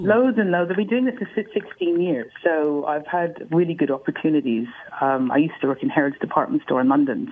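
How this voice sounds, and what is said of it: Speaks with a distinctive accent. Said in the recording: “I love your voice. Ben told me you had this great accent.”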